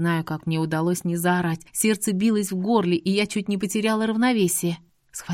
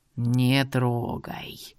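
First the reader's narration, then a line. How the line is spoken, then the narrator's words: Eerie creaky voice. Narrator (Russian): скрипучим голосом произнес жуткий силуэт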